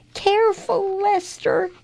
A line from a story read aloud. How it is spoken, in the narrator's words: cried Leo